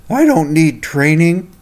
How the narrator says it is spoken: slumped back in his bed and grumbled

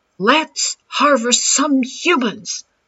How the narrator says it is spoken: shouted Major Bunny

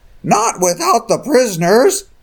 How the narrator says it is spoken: Clarence screamed at the youths

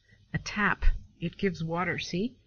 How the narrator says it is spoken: replied the innkeeper

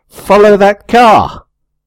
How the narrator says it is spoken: shout

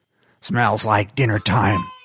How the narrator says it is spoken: Spleen hissed

